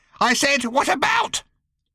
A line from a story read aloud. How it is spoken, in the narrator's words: she almost screeched